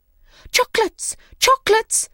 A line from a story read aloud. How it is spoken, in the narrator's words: they cried